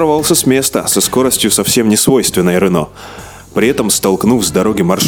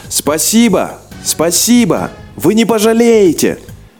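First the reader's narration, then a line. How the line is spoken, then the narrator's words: Breathless shouting. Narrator (Russian): водитель все кричал, чуть не задыхаясь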